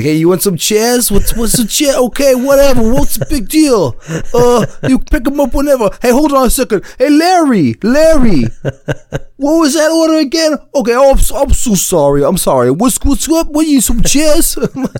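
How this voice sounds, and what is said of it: Exaggerated, bad New York accent. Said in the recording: “that's like the worst New York accent ever, but exactly what it was like.”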